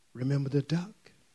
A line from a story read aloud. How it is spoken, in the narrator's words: She whispered